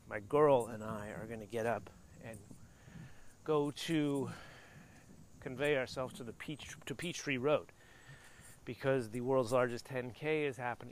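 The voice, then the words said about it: Slightly out of breath. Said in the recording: “Am I already out of breath? Well, kind of... maybe I'm out of breath because already today I went for a run... I'm also walking up a bit of a hill.”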